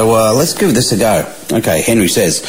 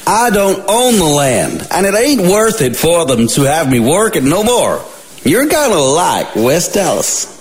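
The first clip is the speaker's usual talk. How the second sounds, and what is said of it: Put-on Texan accent. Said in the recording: “playing Henry with an accent, a Texan accent.”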